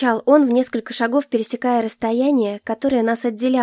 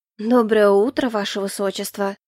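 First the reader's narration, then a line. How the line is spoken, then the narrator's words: Prim, well-mannered, unafraid. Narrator (Russian): Тоном воспитанницы Смольного откликнулась я, ничуть не устрашившись его рычанием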